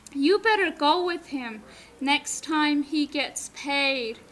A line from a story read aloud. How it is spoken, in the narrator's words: the old grandpa said in a loud voice